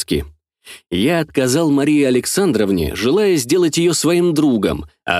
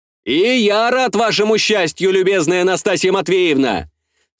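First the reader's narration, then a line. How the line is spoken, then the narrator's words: Shouting after someone. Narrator (Russian): Вслед девице прокричал я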